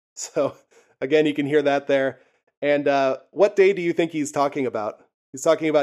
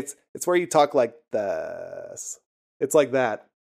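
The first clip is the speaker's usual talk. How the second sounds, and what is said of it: Demonstrates creaky vocal fry. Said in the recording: “Vocal Fry, dude. ... It's where you make your voice kind of like have that fucking sound behind it. ... It's like the Valley Girl thing.”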